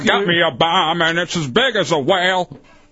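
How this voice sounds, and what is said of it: Sung impression of a band's vocals. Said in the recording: “that may be your best impression ... I do good B-52s?”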